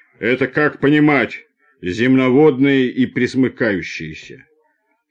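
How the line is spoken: Deep bass man. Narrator (Russian): плечистый рабочий с темными усами пробасил

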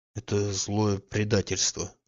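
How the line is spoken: Low, hushed voice. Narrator (Russian): сказал он вполголоса

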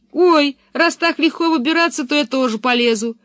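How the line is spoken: Shouted from a tree. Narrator (Russian): крикнул Томми, все еще сидевший на дереве

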